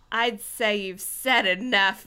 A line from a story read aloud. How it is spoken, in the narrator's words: Winston grumbled